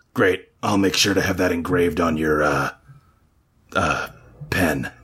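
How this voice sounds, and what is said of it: Performed character voice. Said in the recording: “doing the voice”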